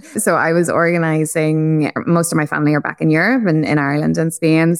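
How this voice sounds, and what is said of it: Irish accent. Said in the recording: “I'm obviously Irish, as the accent is probably quite evident.”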